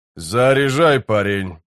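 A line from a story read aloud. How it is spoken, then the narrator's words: Grumbling. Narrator (Russian): проворчал Геслер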